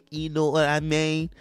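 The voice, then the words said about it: Badly done put-on accent. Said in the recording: “Ooh, that was a terrible accent.”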